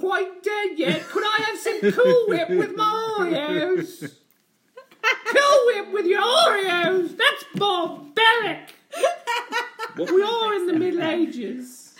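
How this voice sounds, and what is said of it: Monty Python style comic accent. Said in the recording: “He was doing an accent. ... He was doing a Monty Python.”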